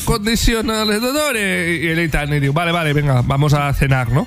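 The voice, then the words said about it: Put-on accent, somewhat Andalusian-sounding. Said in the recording (Catalan): “m'està sortint un accent que... Està donant un accent una miqueta així andalús. Del sud de Portugal, potser”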